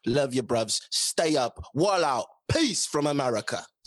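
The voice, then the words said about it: Put-on British accent. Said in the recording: “This is my greatest British accent, as best I can do ... That wasn't bad. That wasn't bad, man.”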